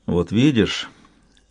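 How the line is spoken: Quiet remark. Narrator (Russian): заметил Брэшен негромко

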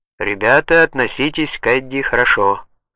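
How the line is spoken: Plain. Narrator (Russian): сказал Эйл

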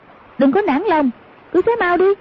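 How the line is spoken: Sharp shout. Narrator (Vietnamese): Hoàng Dung quát lên

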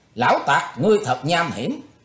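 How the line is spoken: Sneering shout. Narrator (Vietnamese): Nàng lại cười nhạt quát lên

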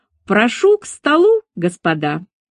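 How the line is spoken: Said loudly. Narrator (Russian): громко произнесла

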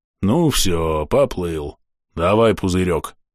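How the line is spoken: Deep bass voice. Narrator (Russian): пробасил кузнец

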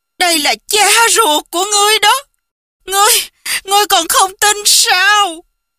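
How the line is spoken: Cry out. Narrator (Vietnamese): Bao Tích Nhược kêu lên

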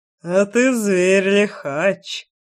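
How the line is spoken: Mocking drawl. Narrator (Russian): насмешливо протянул Шахов

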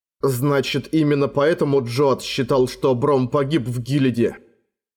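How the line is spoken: Plain. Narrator (Russian): спросил Эрагон

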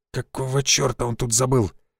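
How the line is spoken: Quiet muttered whisper. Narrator (Russian): Константин Львович тихонько шепнул себе под нос

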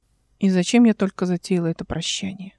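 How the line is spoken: Awkward muttering. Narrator (Russian): Нелепо бормотала она

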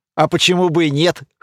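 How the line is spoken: Amused snort. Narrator (Russian): хмыкнул Сириус

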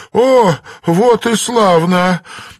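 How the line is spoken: Laughing. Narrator (Russian): Данрос расхохотался

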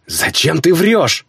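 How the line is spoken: Hiss. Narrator (Russian): прошипела Айна

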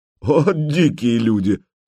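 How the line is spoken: Laughing. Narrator (Russian): Владимир засмеялся

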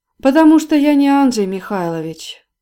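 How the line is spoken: Sad reply. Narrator (Russian): печально ответил Ковальский

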